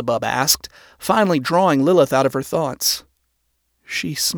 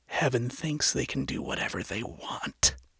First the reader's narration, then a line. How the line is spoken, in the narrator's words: she said softly